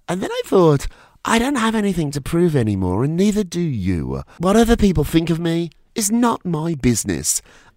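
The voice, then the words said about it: Accented voice with sore throat. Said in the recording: “my sore throat ... this silly accent”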